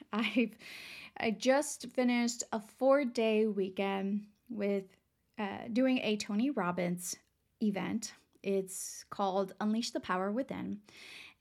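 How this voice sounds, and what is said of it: Raspy, hoarse voice. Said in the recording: “my voice sounds a little raspy or a little weird today ... lots of yelling ... I woke up with a really raspy voice”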